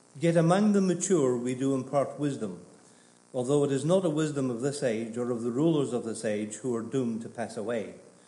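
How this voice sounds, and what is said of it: Noticeable accent while reading aloud. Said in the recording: “that amazing accent that God's given him. ... He thinks we all have an accent, but we know it's him.”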